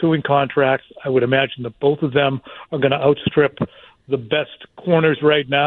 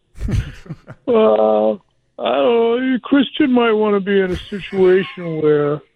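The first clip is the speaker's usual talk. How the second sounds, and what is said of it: Imitates another person's voice. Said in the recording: “I'm going to do my Albert impression.”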